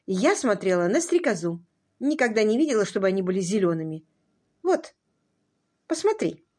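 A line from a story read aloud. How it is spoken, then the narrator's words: Dry reply. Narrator (Russian): сухо ответила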